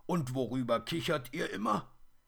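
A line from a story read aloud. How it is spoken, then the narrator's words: Dwarf giggling. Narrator (German): kichert der Zwerg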